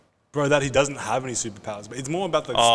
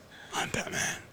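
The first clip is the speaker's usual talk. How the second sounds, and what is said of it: Imitates Batman's voice, poorly. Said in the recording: “Do your Batman voice. ... That was shit.”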